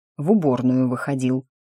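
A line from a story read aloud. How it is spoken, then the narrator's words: Grumbling. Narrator (Russian): буркнул тот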